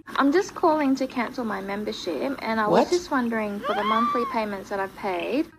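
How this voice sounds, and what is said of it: Australian accent. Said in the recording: “This is how her Aussie accent used to sound.”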